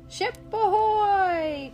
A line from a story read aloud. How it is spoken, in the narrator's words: cried the parrot